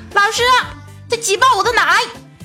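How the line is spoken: Loud shout. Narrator (Chinese): 青雨就站起来大声的喊道

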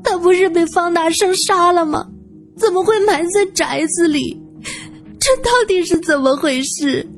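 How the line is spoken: Wailing sobs. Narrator (Chinese): 韩美玉放声大哭

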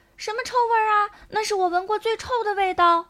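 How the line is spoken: Shouting. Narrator (Chinese): 有人大叫

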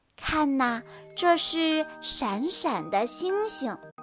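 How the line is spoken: Gentle. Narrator (Chinese): 芭比温柔地说

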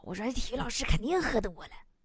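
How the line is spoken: Whispering. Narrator (Chinese): 小声说

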